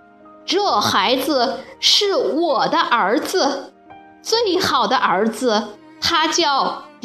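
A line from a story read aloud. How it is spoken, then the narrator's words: Loud father. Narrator (Chinese): 爸爸大声的继续说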